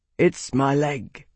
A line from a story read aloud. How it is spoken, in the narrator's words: he said quietly